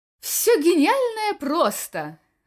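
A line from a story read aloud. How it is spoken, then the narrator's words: Exclamation. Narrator (Russian): воскликнул Катан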